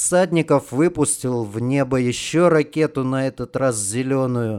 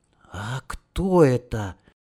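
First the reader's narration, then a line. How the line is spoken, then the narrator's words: Soft breathed words. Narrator (Russian): тихонько выдохнул Сенька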